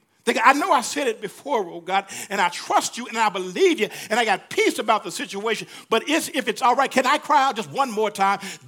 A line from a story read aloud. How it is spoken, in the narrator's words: David cried out again